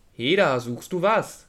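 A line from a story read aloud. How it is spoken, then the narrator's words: Called out. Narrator (German): rief er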